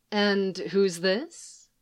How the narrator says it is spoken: Leia asks

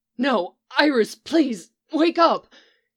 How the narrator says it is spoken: he cried desperately

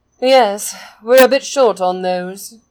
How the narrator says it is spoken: Peggy agrees with a sigh

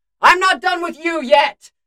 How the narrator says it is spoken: yells back at him

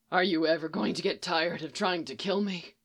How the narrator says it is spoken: Phil asked, his voice sounding much deeper than it usually did

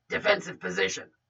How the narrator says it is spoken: Bruce growled, his voice rough over the comms

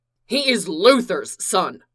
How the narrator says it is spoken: Clark roared

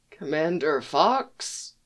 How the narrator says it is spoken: he asks weakly

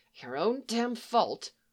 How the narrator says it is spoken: Maze let out a sound of pure disgust and contempt and muttered something that sounded like

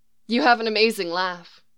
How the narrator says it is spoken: she sighs

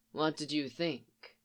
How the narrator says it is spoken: Thrawn asked

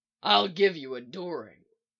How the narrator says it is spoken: Mick growls

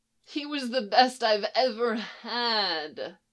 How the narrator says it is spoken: Len moaned

